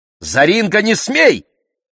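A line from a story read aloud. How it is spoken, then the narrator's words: Mother shouting. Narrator (Russian): крикнула мама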